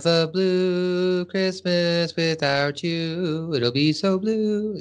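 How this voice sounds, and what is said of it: Elvis-style singing impression. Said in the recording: “my Elvis impression”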